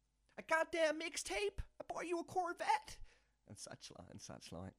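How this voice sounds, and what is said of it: Put-on accent. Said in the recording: “Carried on the accent there briefly.”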